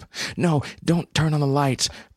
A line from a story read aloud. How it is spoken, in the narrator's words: pleaded Hope